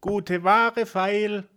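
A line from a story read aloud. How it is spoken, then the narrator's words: Calling out. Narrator (German): rief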